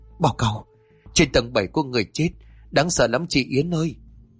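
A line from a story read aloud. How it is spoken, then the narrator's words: Trembling, frightened voice. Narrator (Vietnamese): Vân run giọng bảo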